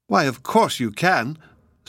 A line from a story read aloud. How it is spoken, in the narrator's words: Sylvie exclaimed